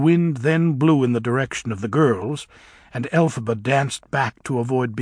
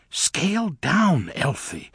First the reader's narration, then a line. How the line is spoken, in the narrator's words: whispered Glinda